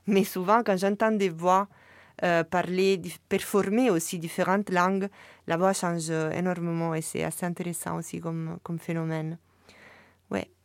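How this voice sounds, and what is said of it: Strong foreign accent in French. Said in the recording (French): “je garde toujours mon accent tellement fort que ça change pas grand-chose”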